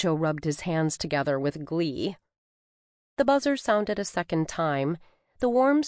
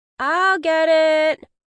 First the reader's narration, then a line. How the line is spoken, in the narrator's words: 13-year-old Anya called out from the family room